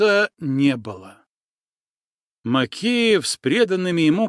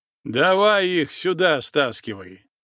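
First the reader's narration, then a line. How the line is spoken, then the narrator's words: Short laugh. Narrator (Russian): Макеев хохотнул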